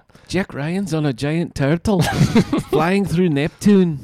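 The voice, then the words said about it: Put-on Scottish accent, Grant Morrison. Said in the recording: “Grant Morrison, everyone. ... my Scottish accent.”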